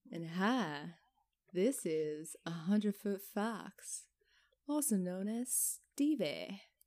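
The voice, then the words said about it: Southern country-boy accent. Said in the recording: “do you sound like a country boy ... you're getting a little southern there”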